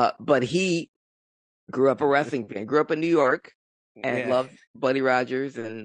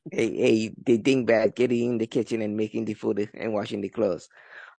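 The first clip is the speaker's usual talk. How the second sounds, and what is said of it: Archie Bunker character impression. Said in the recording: “I am doing my impression of the Archie Bunker.”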